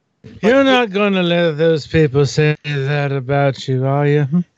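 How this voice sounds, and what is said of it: Imitates another person's voice. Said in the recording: “my very bad Johnny Depp impression ... No, that actually wasn't that bad. ... That wasn't horrible for off the cuff.”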